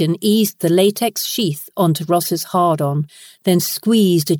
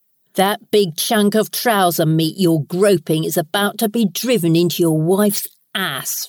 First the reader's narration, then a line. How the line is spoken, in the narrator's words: Ross growled out coarsely